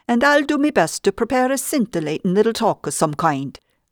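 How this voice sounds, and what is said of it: Put-on Irish brogue. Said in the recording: “in my best Irish brogue”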